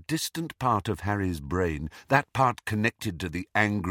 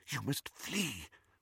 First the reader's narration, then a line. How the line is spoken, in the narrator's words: whispered Professor McGonagall